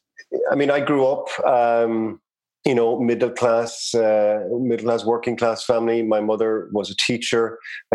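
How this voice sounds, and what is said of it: Irish accent. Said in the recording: “you obviously have a, a, an accent, an Irish accent”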